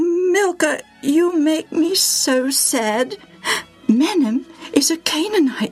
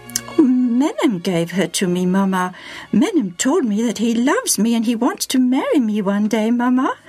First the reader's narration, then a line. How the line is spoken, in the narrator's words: said sweetly and shyly